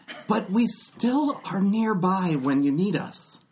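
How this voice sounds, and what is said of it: Character voice. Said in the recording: “it's a privilege watching you do this voice.”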